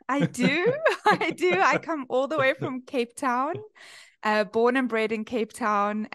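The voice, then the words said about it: South African accent. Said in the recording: “I've kind of retained the South African twang.”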